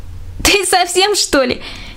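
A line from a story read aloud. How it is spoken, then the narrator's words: Deliberately loud shout. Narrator (Russian): крикнула Аня так громко, что все другие дети тоже услышали ее и нарочито прибавила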